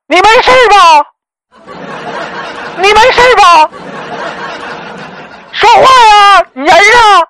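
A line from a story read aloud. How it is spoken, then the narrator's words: Girl screaming in fright, phone. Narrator (Chinese): 那个女孩子在电话那头惊声的大叫道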